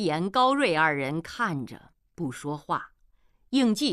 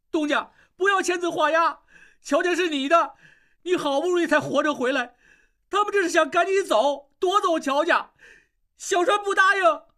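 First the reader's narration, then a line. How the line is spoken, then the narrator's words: Tearful, loud. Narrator (Chinese): 小栓眼泪一下子就流出来，大声说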